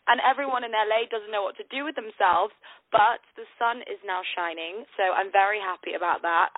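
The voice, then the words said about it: British accent. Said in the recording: “your British accent ... it's like honey”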